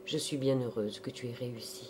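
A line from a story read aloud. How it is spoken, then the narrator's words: Soft murmur. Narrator (French): sa mère en murmurant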